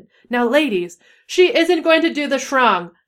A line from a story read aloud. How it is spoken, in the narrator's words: she screeched Trelawney